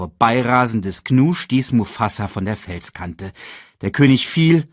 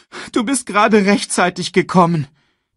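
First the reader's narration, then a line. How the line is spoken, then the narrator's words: Sobbing. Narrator (German): schluchzte Simba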